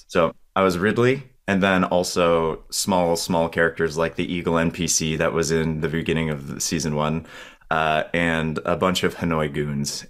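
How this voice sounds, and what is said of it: Slightly croaky voice. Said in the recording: “My voice is a little croaky today.”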